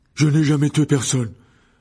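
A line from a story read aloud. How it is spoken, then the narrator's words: Young man exclaiming. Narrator (French): s'écria le jeune homme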